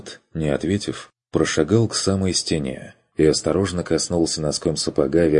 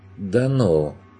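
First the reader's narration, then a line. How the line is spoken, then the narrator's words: Unsure mutter. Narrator (Russian): неуверенно пробормотал подопечный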